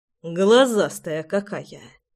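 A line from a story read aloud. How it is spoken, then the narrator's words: Grumble. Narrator (Russian): Проворчал я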